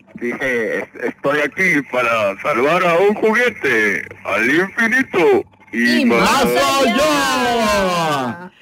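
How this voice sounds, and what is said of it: Imitates Buzz Lightyear cartoon voice. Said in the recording (Spanish): “Estoy imitando la voz de Buzz Lightyear”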